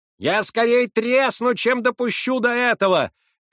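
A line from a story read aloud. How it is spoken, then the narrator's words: Woman shouting. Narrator (Russian): кричала сожительница Солопия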